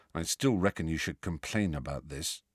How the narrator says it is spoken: said Ron in a low voice

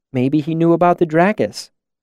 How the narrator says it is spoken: Denna said, looking around nervously

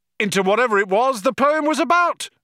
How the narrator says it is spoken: yelled

